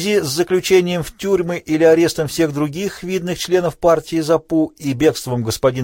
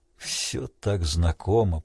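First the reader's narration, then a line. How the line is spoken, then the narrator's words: Mutter. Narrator (Russian): пробормотал Крейг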